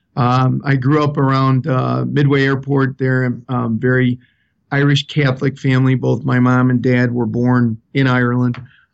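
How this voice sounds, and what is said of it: South Side Chicago accent. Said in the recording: “you have an accent ... I have an accent too. You sound like a guy from the south side of Chicago. And that's true.”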